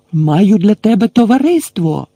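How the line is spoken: Shouting again. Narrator (Ukrainian): знову крикнув Гегрід

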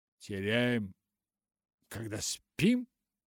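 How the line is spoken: Sick woman exclaiming. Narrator (Russian): воскликнула больная

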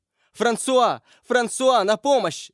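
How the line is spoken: Screaming woman. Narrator (Russian): закричала Маргарита

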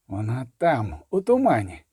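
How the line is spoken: Quiet speech. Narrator (Ukrainian): сказав тихо

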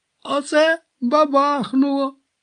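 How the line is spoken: Excited exclamation. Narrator (Ukrainian): захоплено вигукнув Пуць

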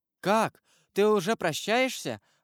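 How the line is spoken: Exclaimed. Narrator (Russian): воскликнула Жюли

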